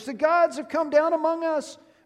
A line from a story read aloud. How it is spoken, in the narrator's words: the crowd, they shouted in the Lyconian language